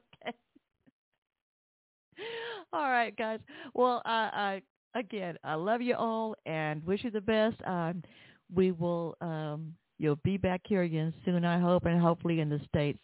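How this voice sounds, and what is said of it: Southern American accent. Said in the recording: “my Southern accent... We love your accent”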